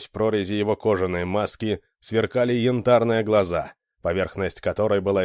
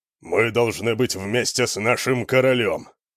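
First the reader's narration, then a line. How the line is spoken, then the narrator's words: Growled. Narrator (Russian): прорычал Альмар Грозовой Кулак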